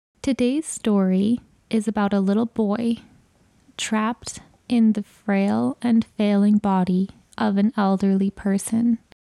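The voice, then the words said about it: Slightly scratchy voice. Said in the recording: “I'm battling a little bit of a cold right now. So, if my voice is a little bit scratchy”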